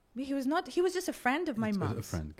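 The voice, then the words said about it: Posh British accent. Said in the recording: “a boarding school in the UK, hence my sometimes very awfully posh accent”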